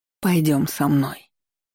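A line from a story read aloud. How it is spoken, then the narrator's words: Woman, soft but insistent. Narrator (Russian): мягко, но настойчиво произнесла женщина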